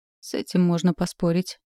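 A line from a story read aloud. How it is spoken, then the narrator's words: Dry curt remark. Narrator (Russian): сухо проронила мама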